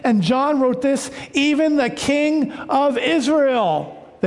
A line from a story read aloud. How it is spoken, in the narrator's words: they shouted